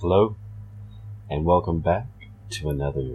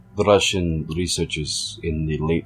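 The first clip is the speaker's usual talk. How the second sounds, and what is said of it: Put-on Russian accent. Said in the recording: “I'm going to be putting on a Russian accent to better accentuate the story”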